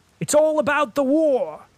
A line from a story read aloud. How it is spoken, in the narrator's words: shouted down the table